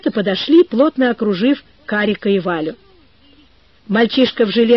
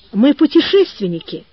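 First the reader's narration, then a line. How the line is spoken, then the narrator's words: Timid. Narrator (Russian): робко сказала Валя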